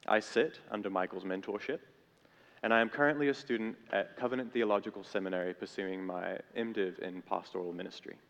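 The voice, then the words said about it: Intermittent South African accent. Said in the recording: “I have a confusing and somewhat intermittent accent that I have very little control over because I grew up in Cape Town, South Africa”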